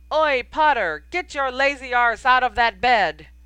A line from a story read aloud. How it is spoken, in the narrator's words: a small wizarding alarm clock that shouted, in a voice very like